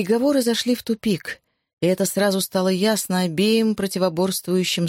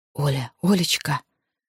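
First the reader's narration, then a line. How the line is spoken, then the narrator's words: Terrified whisper. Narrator (Russian): прошептал смертельно перепуганный Савва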